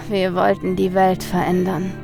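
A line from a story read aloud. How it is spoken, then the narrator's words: Man sighing. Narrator (German): seufzte der Mann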